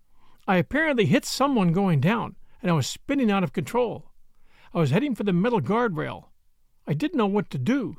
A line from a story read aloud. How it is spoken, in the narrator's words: says Jackie